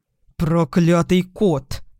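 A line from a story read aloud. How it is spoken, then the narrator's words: Growled. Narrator (Russian): прорычал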